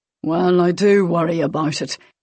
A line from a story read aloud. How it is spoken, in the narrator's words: he grumbled